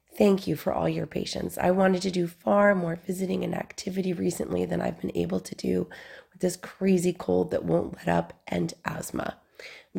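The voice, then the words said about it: Strained, hoarse voice from a cold. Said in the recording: “how much of a struggle my voice has had these last 5 weeks. You can hear how strained I still am.”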